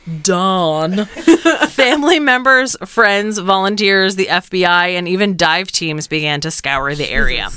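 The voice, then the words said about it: New Jersey accent. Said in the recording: “my Jersey accent”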